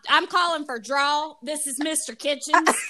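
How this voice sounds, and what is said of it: Put-on Southern accent. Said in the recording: “the Southern accent”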